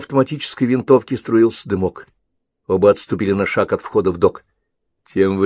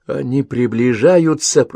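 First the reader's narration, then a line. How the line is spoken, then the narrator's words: Hiss. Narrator (Russian): прошипел Ковальский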